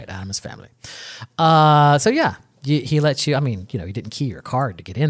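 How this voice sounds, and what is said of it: Usual voice. Nothing is said of it.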